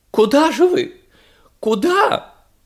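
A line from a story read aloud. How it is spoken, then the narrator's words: Shrill squeal. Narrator (Russian): взвизгнула ракета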